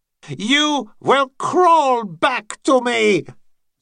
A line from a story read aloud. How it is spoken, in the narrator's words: Skellor shouted after him